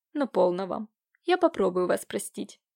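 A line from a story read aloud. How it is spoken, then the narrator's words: Cold. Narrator (Russian): сказал Иван холодно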